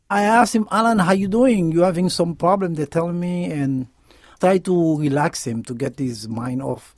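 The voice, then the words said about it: Haitian accent. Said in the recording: “He's originally from Haiti, hence the accent”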